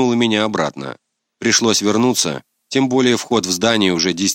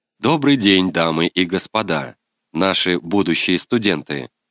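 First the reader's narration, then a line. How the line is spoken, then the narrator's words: Plain. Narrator (Russian): сказал какой-то человек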